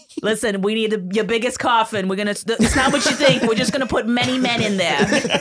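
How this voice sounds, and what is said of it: Bad put-on New England accent. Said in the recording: “that accent is racist. Very terrible. It's not even a good. ... you were trying to do a New England accent, and it's super offensive.”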